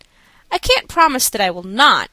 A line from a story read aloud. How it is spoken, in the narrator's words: I answered, with a smile and a sigh